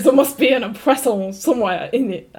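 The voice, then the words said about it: Put-on French accent. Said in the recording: “You should do it in a French accent.”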